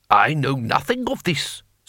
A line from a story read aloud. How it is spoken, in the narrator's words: snapped Lord Tang